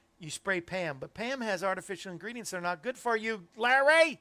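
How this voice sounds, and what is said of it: Yelling, loud voice. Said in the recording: “Why am I yelling today?”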